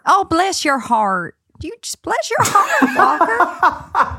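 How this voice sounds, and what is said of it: Unconvincing put-on Southern accent. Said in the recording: “It's such a confused Southern accent.”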